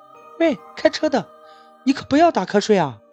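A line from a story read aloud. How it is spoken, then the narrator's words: Loud shout. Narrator (Chinese): 大声喊道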